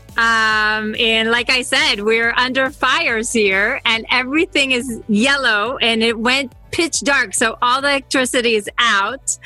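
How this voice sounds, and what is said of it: Slight Israeli accent. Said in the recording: “you've got a bit of an accent... I'm from Israel”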